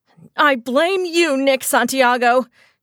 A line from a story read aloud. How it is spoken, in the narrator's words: yelled